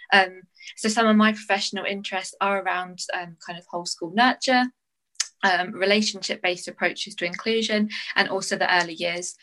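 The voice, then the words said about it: English accent. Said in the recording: “despite the English accent, I'm mostly Scottish”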